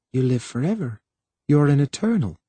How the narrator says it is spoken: She said softly

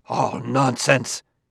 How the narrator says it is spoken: gasped out Liebig

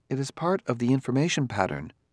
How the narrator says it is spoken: said Daniil smoothly

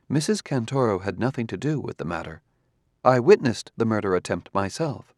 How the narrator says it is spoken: Daniil said calmly

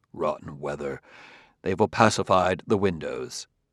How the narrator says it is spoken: Amadeiro muttered to himself

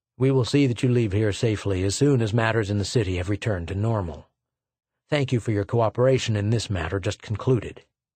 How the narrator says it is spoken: The colonel said curtly

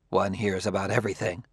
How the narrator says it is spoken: muttered Liebig

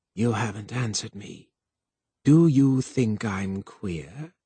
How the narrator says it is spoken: Twistle said, in a quiet, insinuating voice

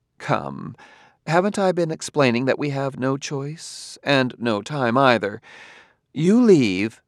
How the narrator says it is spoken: Demichek said calmly

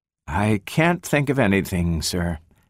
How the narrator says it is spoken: she replied wearily

